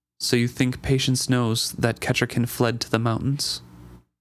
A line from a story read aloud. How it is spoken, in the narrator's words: His voice was calm as he asked